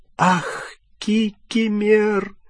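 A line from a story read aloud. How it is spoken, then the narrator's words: Tearful moan. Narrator (Russian): простонала расплакавшаяся Гермиона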